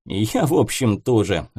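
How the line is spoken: Laughing. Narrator (Russian): засмеялся Будищев

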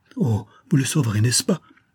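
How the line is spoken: Exclaimed. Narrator (French): s'écria Grincel

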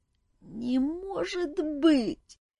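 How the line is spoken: Groaning. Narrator (Russian): застонал Жак

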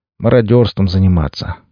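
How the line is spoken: Sad. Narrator (Russian): грустно произнес Максим

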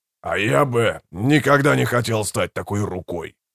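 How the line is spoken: Growled. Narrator (Russian): прорычал Брут

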